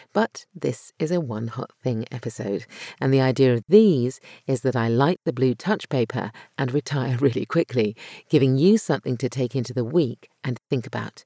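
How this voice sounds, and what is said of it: Slightly croaky voice. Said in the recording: “my voice was slightly croaky today after 4 days of speaking, presenting, and shouting over music”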